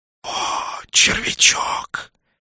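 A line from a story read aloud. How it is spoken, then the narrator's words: Hissed. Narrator (Russian): прошипел Нак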